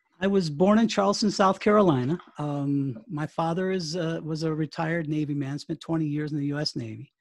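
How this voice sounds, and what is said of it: Non-British, American accent. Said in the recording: “I can spot by your accent that you're not from the fair shores of the United Kingdom”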